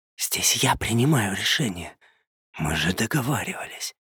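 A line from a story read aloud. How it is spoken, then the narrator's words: Indignant baritone whisper. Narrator (Russian): возмущенно зашептал баритон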